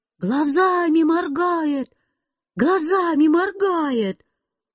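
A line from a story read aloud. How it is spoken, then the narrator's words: Sudden crowd shouting. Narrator (Russian): вдруг все закричали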